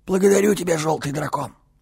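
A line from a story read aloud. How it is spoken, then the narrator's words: Strained wheeze through coughing. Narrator (Russian): Почти сразу его начал душить кашель, но страх одержал верх над болью, и покрасневший Адорн, пересилив себя, просипел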